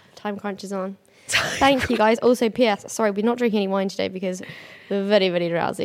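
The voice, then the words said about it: Croaky, nearly lost voice. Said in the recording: “I lost my voice. ... To be fair, mine's gone. ... little bit like croaky.”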